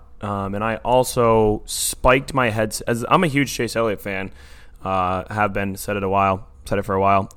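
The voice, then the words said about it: Hoarse, strained voice. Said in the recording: “my voice is now shot”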